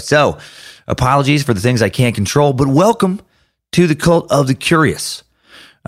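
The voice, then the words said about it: Worn, strained voice. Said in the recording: “my voice is a little shot from show”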